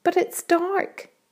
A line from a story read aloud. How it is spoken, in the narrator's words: cried James